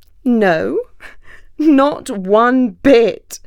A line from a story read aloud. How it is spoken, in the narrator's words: laughed